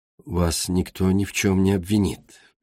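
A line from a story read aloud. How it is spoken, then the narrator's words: Soft repetition. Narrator (Russian): все так же мягко повторил Игрис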